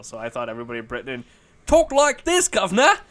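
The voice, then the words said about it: Exaggerated put-on Cockney accent. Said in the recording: “Dick Van Dyke's Cockney accent in Mary Poppins ... the first Cockney accent I ever heard”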